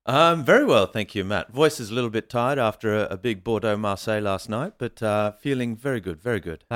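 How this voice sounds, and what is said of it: Australian accent with European twang. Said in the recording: “Australian accent has mixed in with a bit of a European twang”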